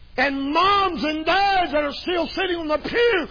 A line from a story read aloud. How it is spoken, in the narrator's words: they roar like the bear